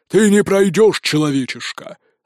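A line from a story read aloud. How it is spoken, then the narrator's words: Growled. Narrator (Russian): рыкнул он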